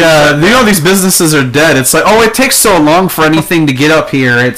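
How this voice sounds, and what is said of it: Usual voice. Nothing is said of it.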